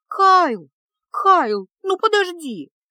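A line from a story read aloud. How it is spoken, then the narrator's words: Shouting after someone. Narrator (Russian): закричала ему вслед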